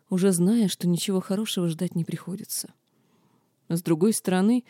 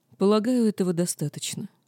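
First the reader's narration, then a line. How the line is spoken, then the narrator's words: Icy tone. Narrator (Russian): ледяным тоном произнес кесарь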